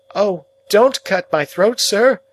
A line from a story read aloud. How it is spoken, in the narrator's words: I pleaded in terror